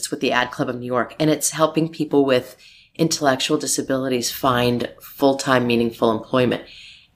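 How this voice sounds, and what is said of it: Rough, hoarse voice. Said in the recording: “My voice is a little rough because we had our first gala last night.”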